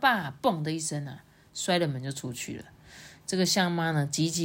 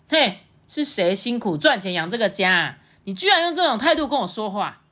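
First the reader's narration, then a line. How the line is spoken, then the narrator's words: Angry roar. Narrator (Chinese): 象爸就更生气啦，就对着象妈大吼说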